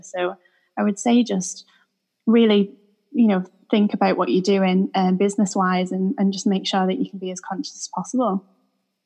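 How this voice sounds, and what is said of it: Manchester English accent. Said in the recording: “I think I've got a bit of an accent as well... is from Manchester in England”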